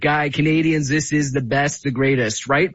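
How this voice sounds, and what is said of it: Donald Trump impression. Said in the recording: “his best Donald Trump impression”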